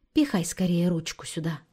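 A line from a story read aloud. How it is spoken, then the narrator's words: Whisper to a child. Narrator (Russian): шепотом сказала она маленькому племяннику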